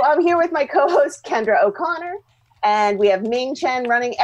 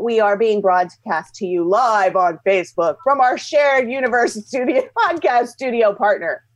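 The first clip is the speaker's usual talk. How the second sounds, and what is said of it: Radio announcer voice. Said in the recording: “That's my radio voice... That was very good.”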